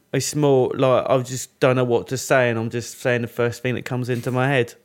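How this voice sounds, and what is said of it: Imitates a comedian's accent. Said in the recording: “That's quite good though, the accent.”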